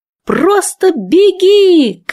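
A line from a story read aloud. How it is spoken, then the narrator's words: Breathless shout. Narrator (Russian): крикнула я, уже задыхаясь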